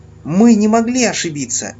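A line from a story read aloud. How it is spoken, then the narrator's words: Sharp reply, stressed first syllable. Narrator (Russian): Резко ответила огненно-гривая пони, делая ударение на первом слоге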